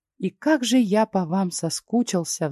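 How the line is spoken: Sigh. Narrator (Russian): вздохнул Фокс

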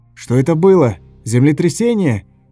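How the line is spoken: Shout. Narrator (Russian): крикнул

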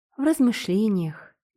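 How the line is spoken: Soft little girl's reply. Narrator (Russian): мягко ответила маленькая Элизабет

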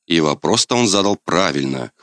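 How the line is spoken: Snorting. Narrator (Russian): хмыкнул я

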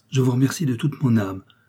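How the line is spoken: Exclaimed. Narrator (French): s'écria Arthur Haldimand

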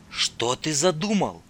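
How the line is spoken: Whispered. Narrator (Russian): шепнула Татьяна

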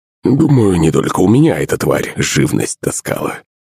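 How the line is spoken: Old man muttering. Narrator (Russian): пробурчал под нос дед

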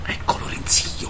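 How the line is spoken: Whispered. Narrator (Italian): bisbigliò Macari alle verte

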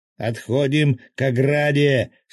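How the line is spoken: Loud yell. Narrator (Russian): снова громко заорал разведчик

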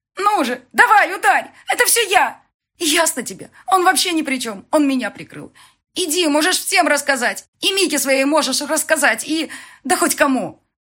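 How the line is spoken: Frenzied shouting. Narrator (Russian): В неистовстве она кричала

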